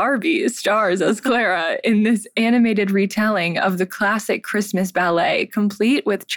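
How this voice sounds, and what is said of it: Usual voice. Nothing is said of it.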